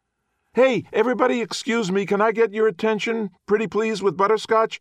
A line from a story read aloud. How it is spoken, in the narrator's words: Darren yells out